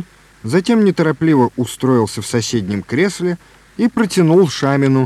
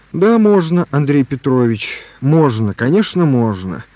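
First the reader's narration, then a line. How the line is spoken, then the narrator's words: Gentle. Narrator (Russian): сказал Лобанов мягко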